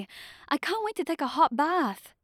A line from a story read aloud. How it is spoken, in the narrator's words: Alexandra said eagerly